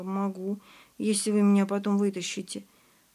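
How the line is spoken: Uncertain. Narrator (Russian): Костя неуверенно сказал

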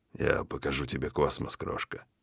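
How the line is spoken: Hoarse promise. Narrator (Russian): хрипло обещаю

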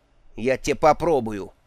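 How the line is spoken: Mother's irritable snap. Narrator (Russian): огрызнулась матушка

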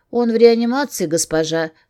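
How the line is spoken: Calm. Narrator (Russian): спокойно ответила ей медсестра

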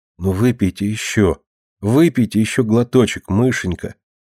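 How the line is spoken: Unusually gentle pleading. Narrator (Russian): несвойственно ласково упрашивал Вася

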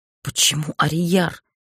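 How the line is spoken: Forced out. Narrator (Russian): выдавила я

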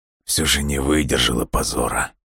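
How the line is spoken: Quiet. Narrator (Russian): тихо произнес Александр Геннадьевич

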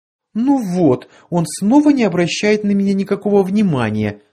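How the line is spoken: Mock-tearful exclamation. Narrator (Russian): нарочито плаксивым тоном возгласила Кларианка

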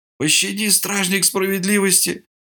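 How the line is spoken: Strained, sniffling through broken nose. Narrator (Russian): выдавил Кусах, шмыгая разбитым носом

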